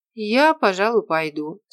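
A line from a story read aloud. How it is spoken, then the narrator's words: Plain. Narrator (Russian): сказала Мирослава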